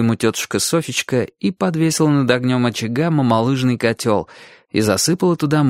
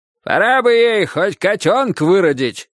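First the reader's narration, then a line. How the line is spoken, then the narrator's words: Grandfather shouting from afar. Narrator (Russian): крикнул дедушка с веранды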